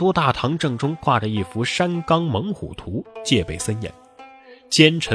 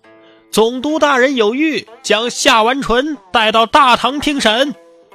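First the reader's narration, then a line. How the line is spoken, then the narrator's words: Loud announcing call. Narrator (Chinese): 狱卒大声传呼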